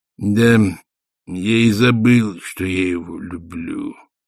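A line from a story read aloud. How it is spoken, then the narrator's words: Gloomy. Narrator (Russian): мрачно сказал война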